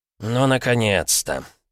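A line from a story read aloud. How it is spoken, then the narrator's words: Grumbling. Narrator (Russian): пробурчал Аполлонов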